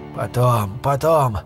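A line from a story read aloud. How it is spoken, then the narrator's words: Tired. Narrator (Russian): устало произнес Армитедж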